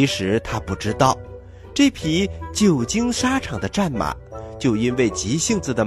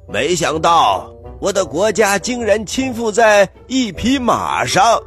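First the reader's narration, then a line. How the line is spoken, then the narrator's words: Sad loud cry. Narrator (Chinese): 悲伤的大声的喊道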